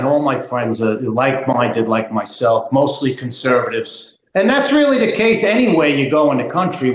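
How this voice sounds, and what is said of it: Thick Long Island accent. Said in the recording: “You could tell them from Long Island just from the accent ... it's pretty heavy. It's thick.”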